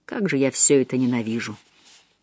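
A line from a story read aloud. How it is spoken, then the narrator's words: Muttered. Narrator (Russian): Что-то пробормотав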